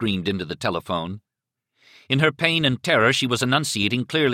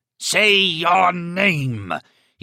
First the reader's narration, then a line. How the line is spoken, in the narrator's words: he roared at her